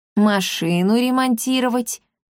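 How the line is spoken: Lazy reply. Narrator (Russian): лениво ответил кот

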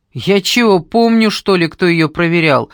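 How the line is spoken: Roar. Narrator (Russian): взревел Вася

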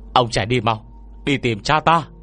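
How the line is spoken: Urgent shout. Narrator (Vietnamese): Lao Trình hét lên

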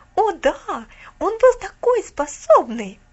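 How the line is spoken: Exclamation. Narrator (Russian): воскликнула Алида

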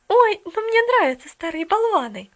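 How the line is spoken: Hurried exclamation. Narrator (Russian): торопливо воскликнула Поллианна

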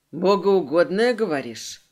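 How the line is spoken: Snorting. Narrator (Russian): Хмыкнул Морли

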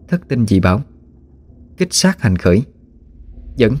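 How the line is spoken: Muttered incantation. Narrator (Vietnamese): miệng lẩm bẩm

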